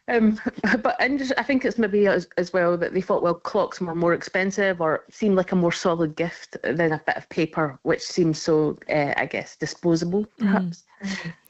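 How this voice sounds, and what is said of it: Scottish accent. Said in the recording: “I'm picking up an accent from you as well ... Originally, I'm from Scotland”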